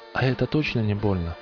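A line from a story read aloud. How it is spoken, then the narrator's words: Plain. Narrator (Russian): спросил телепузик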